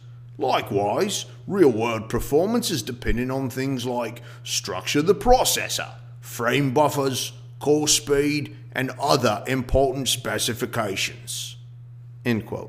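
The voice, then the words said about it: Put-on accent reading a quote. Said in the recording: “I don't know why I gave Digital Trends that accent”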